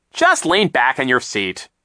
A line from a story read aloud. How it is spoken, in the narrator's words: Captain Sham said sharply